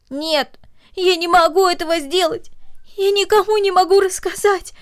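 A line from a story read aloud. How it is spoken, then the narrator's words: Sobbing girl. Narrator (Russian): произнесла девочка между всхлипываниями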